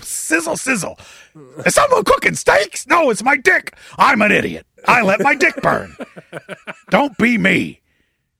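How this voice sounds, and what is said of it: Imitates another person's voice. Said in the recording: “So just a touch of Hulk Hogan in that impersonation... A little Hulk Hogan... Just a dusting... A little Heath Ledger Joker was in there as well.”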